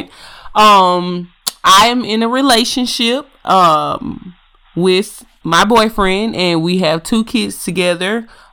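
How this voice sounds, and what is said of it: Strong Southern country accent. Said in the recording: “my country accent is a little bit worse than his, goodness gracious, you'll hear it”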